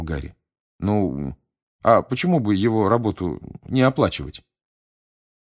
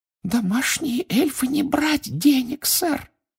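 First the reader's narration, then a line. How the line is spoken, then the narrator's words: Muffled squeak. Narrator (Russian): приглушенно пропищала она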